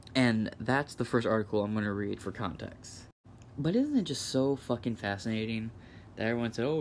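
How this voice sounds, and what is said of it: Usual voice. Nothing is said of it.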